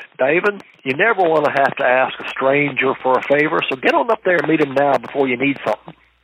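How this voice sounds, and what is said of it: Southern Alabama accent. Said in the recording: “an old Alabama lobbyist ... It's my accent, close enough”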